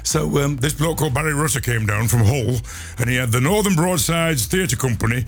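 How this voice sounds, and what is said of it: Midlands English accent. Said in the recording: “when you do it in a Midlands accent”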